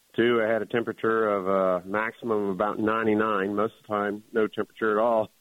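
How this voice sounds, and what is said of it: Slightly hoarse voice. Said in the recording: “you can probably tell, I'm a little bit hoarse.”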